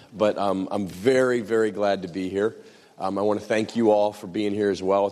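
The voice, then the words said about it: American accent, congested head-cold voice. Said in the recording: “between an American accent and a bad head cold”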